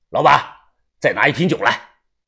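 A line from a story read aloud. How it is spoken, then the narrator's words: Loud calling. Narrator (Chinese): 他又大声的叫老板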